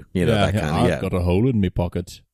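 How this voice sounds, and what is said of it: Put-on Liverpool accent. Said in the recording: “really all I can do is Liverpool”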